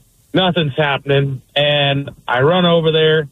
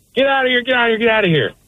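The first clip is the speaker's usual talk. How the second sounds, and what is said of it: Yelling. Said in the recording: “I'm yelling at her”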